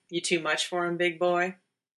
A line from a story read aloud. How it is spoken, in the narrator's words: Dean chuckled